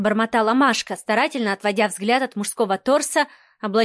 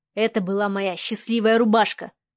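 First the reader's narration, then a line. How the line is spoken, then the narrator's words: Snorted. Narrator (Russian): хмыкнул незнакомец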